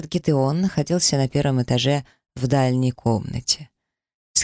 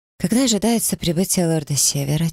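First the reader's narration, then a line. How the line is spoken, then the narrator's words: Quiet question. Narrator (Russian): тихо спросил я у Ирбиса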